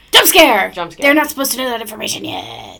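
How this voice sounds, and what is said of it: Spooky voice. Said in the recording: “That was a spooky voice.”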